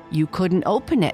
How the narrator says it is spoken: said

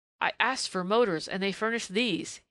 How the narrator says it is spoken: he cried disgustedly

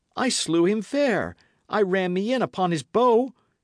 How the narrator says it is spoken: he cried

